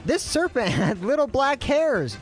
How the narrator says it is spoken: Doug shrieked

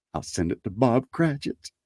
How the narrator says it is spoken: whispered Scrooge, splitting with a laugh

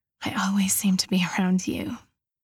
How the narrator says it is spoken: murmurs

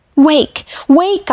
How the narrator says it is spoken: cried

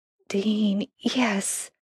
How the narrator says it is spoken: Sam mumbled

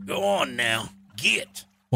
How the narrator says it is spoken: one of them cackled from the middle of the river

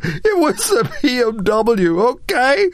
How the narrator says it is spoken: Michael laughed

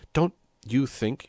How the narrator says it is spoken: he stammered, but Don Camilo cut him short

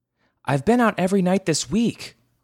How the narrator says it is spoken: Mama shouted back

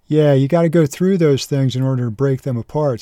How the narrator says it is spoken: says Will

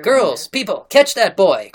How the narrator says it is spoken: cried the mistress from the window

